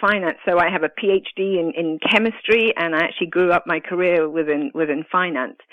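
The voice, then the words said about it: Italian accent with British influence. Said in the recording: “as you can probably tell by my accent, I'm not born and bred in the States, but I'm actually Italian and grew up in the UK.”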